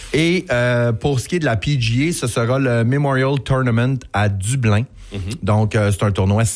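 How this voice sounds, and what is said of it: Usual voice. Nothing is said of it.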